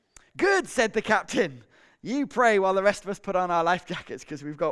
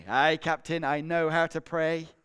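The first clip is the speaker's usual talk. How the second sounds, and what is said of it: Put-on Scottish accent, slightly English. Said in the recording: “They're always Scottish, aren't they? ... With a slight English accent as well in there.”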